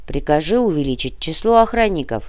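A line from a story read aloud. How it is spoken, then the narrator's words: Muttering. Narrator (Russian): пробурчал Крюгер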